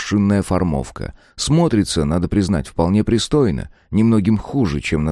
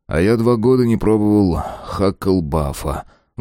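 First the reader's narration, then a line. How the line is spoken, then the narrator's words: Sighing. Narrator (Russian): вздохнул Мэлори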